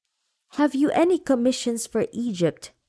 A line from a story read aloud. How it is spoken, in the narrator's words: He cried